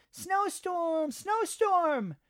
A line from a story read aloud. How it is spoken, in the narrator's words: Mimi shouted